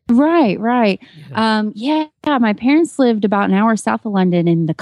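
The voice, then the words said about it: Southern American accent. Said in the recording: “you with your Southern accent living in Texas”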